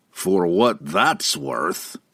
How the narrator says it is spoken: the dejected Brunner grumbled

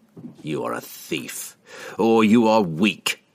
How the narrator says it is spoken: snarled

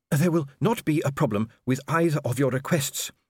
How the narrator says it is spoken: he panted

